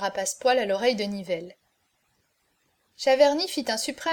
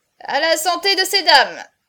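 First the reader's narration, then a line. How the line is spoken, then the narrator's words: Exclaimed. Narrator (French): s'écria-t-il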